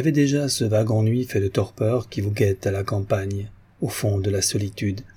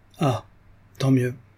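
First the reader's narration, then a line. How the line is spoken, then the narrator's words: Happy sigh. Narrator (French): dit Geneviève avec un soupir heureux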